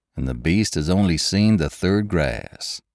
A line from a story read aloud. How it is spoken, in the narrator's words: said its owner